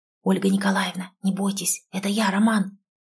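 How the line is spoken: Loud whisper, young man. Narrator (Russian): раздался громкий шепот молодого человека

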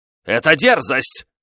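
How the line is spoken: King shouting. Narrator (Russian): крикнул король

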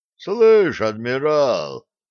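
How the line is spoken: Stout pirate's rumble. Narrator (Russian): прогудел тучный пират

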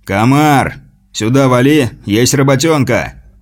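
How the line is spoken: Barked shout. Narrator (Russian): гаркнул лидер Серых

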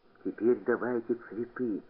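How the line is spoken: Whispered. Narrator (Russian): прошептал куница

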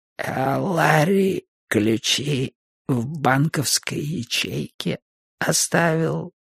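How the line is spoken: Creaky voice. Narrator (Russian): проскрипела

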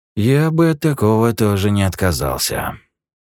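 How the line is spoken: Sighing. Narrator (Russian): вздохнул Юджин

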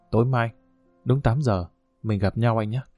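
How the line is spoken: Soft, gentle. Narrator (Vietnamese): nhẹ nhàng nói

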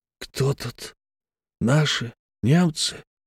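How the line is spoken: Whispered with a smile. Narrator (Russian): шепотом, невольно улыбаясь, спросил Алексей

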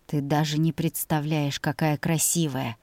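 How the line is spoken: Soft breathy exhale. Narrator (Russian): тихо выдохнул он

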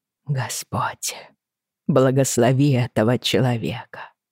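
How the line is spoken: Murmured. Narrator (Russian): пробормотала она

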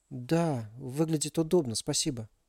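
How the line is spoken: Quiet, dejected reply. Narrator (Russian): тихо ответила Алиса, подавленная последними событиями

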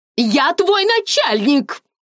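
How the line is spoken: Shouted. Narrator (Russian): закричала Мелани

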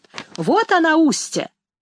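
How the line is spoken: Loud girl's voice. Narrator (Russian): та толстая девчонка громко говорит

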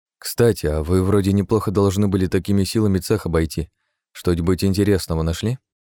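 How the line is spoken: Plain question. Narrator (Russian): спросил Артём

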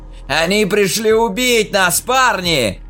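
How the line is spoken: Shouting. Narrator (Russian): крикнул Хоук

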